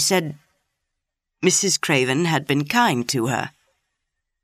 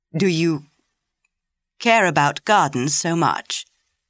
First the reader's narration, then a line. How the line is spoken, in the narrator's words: He said slowly